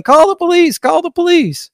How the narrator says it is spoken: the other BLM protesters is yelling

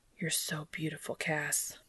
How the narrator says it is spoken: Dean whispers

